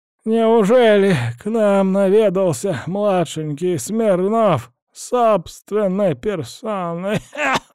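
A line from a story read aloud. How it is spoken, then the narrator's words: Ironic wheeze, coughing old man. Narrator (Russian): Иронично прохрипел дед и снова закашлял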